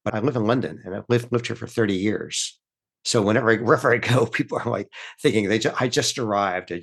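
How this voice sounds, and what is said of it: American English accent. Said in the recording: “I have an American accent.”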